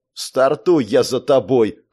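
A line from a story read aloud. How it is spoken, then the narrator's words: Dismissive snort. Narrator (Russian): хмыкнул тот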